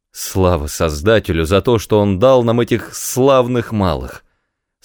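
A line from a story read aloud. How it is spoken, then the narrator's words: Tearful exclamation. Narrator (Russian): Со слезами на глазах воскликнул О'Хара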